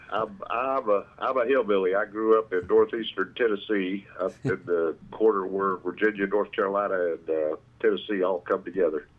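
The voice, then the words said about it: Southern US accent. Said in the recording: “below the Mason-Dixon line from the sound of your accent”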